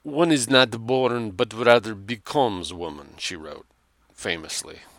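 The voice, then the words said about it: Slight put-on Russian accent. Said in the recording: “I gave that a bit of a Russian accent, but it should be French.”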